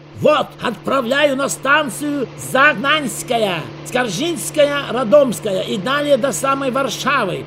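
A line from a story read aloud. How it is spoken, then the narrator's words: Loud over engine noise. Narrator (Russian): Павлов говорил громко, чтобы заглушить рев мощного четырехцилиндрового мотора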